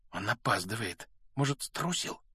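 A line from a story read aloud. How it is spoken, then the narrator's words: Whisper. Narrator (Russian): прошептал Рон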